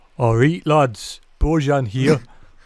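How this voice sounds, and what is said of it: Imitates another person's voice. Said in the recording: “can I do his voice? ... doing a bad impression. Unless you can do a really good one.”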